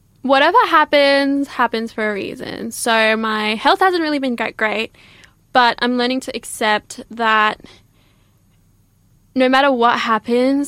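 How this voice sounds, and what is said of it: Breathless, out of breath. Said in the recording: “I'm out of breath.”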